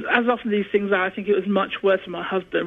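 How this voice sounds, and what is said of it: British accent. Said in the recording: “as you can tell, I still have the British accent”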